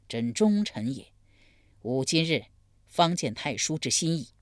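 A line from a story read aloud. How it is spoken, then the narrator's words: Sighing. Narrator (Chinese): 宁于叹道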